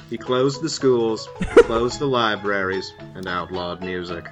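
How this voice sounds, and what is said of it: Imitates another person's voice. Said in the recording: “my Alistair Cook impression ... It's pretty good.”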